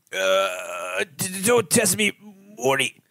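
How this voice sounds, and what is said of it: Rick from Rick and Morty impression. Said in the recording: “Why'd you have to bust out the Rick and Morty?”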